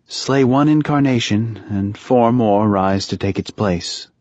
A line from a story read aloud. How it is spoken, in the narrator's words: Leah said wearily